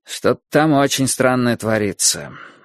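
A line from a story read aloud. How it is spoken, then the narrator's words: Gloomy. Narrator (Russian): мрачно сказал Борис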